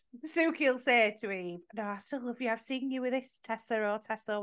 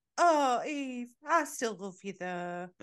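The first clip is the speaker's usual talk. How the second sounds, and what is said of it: Imitates a character's voice. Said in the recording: “I was saying that in an Eve accent.”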